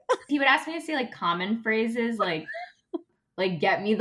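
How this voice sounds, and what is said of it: Usual voice. Nothing is said of it.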